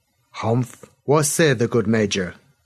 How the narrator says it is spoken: The hussar captain spoke North Sea Pigeon, but with a clear accent

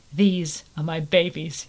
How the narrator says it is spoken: he said softly

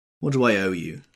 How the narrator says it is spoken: demanded Tom, harshly

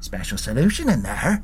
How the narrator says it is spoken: Malcolm said under his breath

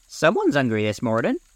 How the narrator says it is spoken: his mother playfully said

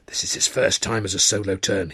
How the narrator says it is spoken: he whispered

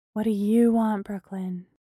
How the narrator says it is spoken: Bree asked gently

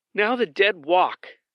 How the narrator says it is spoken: she exclaimed

